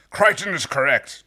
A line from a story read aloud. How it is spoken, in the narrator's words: Dargo said in a low growl